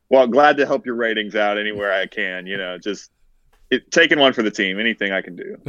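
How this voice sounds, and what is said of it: Southern American drawl. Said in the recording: “that Southern drawl”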